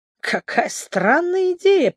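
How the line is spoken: Muttered through clenched teeth. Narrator (Russian): пробормотал он сквозь зубы

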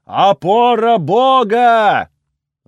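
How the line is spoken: Yelled. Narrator (Russian): заорал Пас

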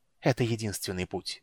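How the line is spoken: Hoarse. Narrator (Russian): хрипло выговорил Рейслин

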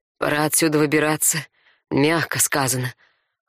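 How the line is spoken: Hoarse. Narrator (Russian): хрипло произнес Дарай

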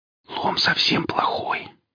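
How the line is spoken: Whisper. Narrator (Russian): сказала Оля Велесу шепотом

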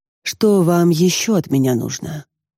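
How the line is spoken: Icy tone. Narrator (Russian): Ледяным тоном осведомилась я

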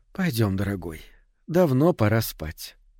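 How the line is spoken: Sleepy, smiling. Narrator (Russian): сонно улыбнулась и сказала

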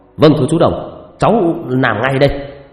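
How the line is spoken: Stiff loud shout. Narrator (Vietnamese): Quân nghiêm người hét to

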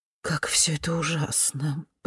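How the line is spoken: Muttered. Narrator (Russian): пробормотала миссис Кёртис

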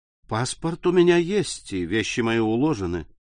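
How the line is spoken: Soundless, calm voice. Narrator (Russian): сказал Морель беззвучно, спокойным голосом

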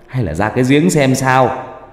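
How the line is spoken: Shouted. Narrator (Vietnamese): một bác hét lên

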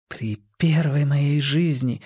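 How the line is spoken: Whispering. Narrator (Russian): шептала Джинни

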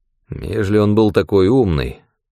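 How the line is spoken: Grumbling. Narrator (Russian): проворчал Лучко

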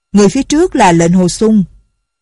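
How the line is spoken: Loud voice from behind. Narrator (Vietnamese): có người lớn tiếng nói

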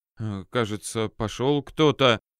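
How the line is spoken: Clergyman mumbling. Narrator (Russian): промямлил один из отцов церкви

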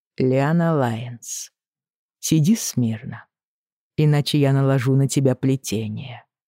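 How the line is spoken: Grim warning. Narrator (Russian): мрачно предупреждает

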